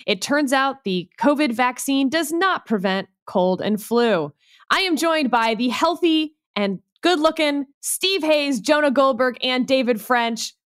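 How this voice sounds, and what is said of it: Nasal voice from a cold. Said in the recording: “with a cold, if I sound a little nasally.”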